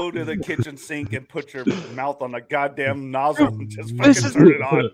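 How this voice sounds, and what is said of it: Usual voice. Nothing is said of it.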